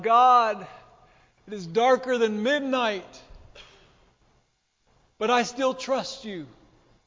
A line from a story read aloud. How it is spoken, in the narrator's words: he cried out